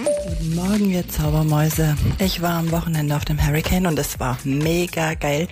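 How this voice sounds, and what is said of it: Somewhat worn-out, strained voice. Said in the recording (German): “meine Stimme ist noch ein bisschen im Eimer”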